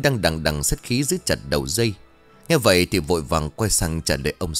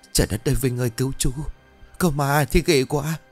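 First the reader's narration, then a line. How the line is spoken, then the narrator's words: Whimpering trembling voice. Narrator (Vietnamese): mếu máo nói giọng run rẩy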